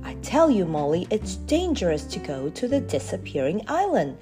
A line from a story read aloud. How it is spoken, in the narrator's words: said Chinky crossly